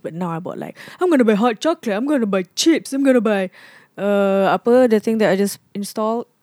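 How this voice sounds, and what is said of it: Mocking put-on voice of oneself. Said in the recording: “this your impression of yourself? ... It sounds nothing like you, really. ... It's to mock yourself, like kind of mocking”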